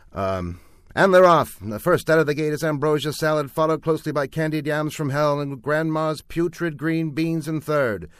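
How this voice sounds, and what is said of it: Horse race announcer voice. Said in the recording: “Put your best announcer voice on.”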